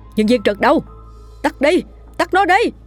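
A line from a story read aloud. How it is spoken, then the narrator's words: Screaming. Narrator (Vietnamese): Anh thét lên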